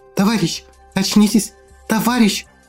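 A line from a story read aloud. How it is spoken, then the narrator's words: Loud whisper. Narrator (Russian): Громко шептала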